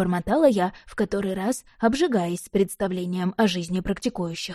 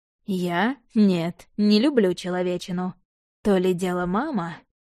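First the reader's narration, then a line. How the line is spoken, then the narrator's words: Drawled. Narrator (Russian): Протянул Влад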